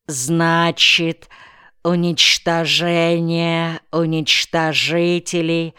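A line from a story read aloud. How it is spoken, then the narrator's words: Slow, careful pronunciation. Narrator (Russian): медленно выговорил незнакомые слова Николай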